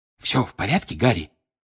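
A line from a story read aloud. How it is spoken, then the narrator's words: Whispering. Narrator (Russian): прошептал Бегман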